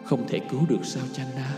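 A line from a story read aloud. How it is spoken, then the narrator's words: Dazed, absent voice. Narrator (Vietnamese): Thái tử thẫn thờ nói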